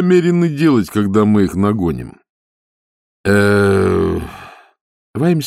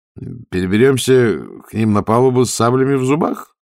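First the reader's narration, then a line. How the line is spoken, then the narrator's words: Uncertain suggestion. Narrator (Russian): неуверенно предположил он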